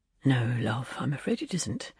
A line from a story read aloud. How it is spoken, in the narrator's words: her husband murmured